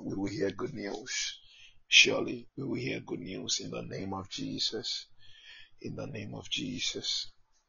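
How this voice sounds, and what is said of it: Worn, strained speaking voice. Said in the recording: “Is it my voice? My voice is somewhere because for some time now, I have just been praying and praying. And just get a terrible voice. That's affected my voice.”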